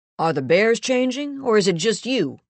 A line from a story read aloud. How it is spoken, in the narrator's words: Someone called out